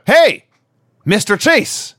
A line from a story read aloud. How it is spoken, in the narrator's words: we hear a mystery voice shout